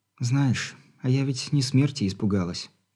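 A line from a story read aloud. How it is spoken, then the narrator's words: Quiet, tender girl. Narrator (Russian): тихо произнесла девушка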